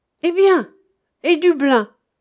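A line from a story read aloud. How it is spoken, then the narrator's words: Exclaiming. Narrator (French): s'écria Gwip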